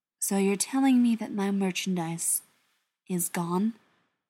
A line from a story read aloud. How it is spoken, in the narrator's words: Beckett asked, his voice flat and unimpressed